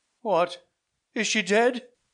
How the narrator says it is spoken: cried he in wild confusion

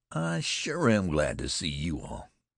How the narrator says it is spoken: said Jim in a slow, soft southern accent

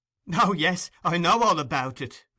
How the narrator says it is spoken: replied the girl, laughing hysterically and shaking her head from side to side, with a poor assumption of indifference

